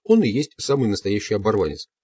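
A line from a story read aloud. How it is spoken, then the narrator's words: Plain. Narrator (Russian): сказал Дон Хуан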